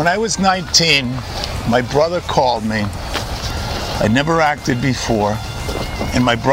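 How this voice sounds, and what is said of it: Usual voice. Nothing is said of it.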